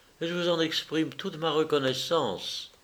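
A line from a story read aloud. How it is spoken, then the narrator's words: Soft childlike voice. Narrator (French): dit-il d'une voix douce comme une voix d'enfant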